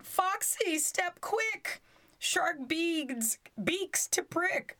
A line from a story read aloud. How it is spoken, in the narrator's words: Drakesdale cried